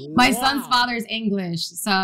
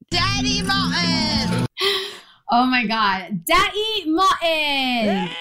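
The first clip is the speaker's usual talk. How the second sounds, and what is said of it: Drunken imitation of another person's voice. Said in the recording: “Bree's drunken Daddy Martin ... give us their best Daddy Martin impression ... That might have been the best one yet ... I felt like Bree was here”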